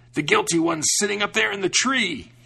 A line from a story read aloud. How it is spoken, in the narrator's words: he screamed